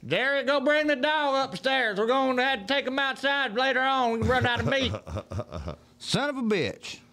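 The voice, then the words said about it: Put-on southern accent. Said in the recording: “You said you got to use a southern accent.”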